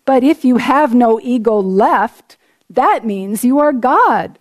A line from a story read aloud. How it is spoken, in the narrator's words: Debi cried